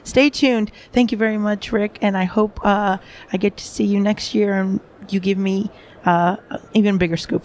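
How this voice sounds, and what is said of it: Congested voice from a cold. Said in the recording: “with a bit of a cold, so my voice is a little hinky”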